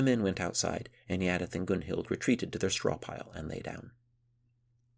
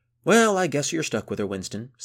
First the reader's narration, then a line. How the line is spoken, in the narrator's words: said Boya merrily